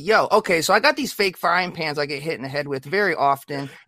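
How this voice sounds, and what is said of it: Imitates another person's voice. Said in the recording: “doing my voice”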